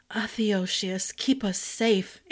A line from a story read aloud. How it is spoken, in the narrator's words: Ash whispered